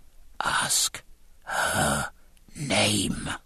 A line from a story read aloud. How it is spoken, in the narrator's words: Jack whispered